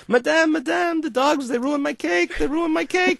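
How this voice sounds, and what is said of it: Bad French accent imitating Michel Richard. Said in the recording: “this is a very bad French accent, but this is Michel Richard, has a very pronounced accent”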